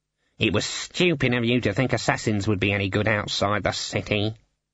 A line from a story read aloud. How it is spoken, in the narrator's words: muttered Cleet